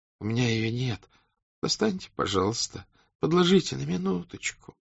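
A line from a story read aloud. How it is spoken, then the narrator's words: Pitiful voice. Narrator (Russian): говорил он жалким голосом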